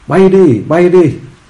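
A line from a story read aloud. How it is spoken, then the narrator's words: Panicked shout. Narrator (Vietnamese): hốt hoảng hét lên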